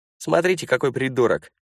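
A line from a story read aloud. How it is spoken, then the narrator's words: Shout. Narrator (Russian): крикнул один из них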